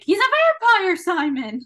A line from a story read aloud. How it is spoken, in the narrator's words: he's screaming